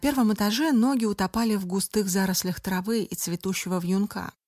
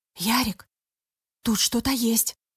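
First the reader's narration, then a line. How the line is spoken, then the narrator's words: Whispered call. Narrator (Russian): почему-то шепотом позвала Даша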